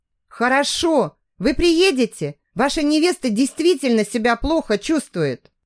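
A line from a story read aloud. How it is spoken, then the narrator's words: Worried voice. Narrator (Russian): сообщила Маргарита встревоженным голосом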